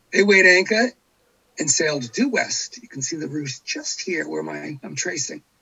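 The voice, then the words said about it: Massachusetts accent. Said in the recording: “Milton, Massachusetts, where I was born and raised. You can probably tell from my accent.”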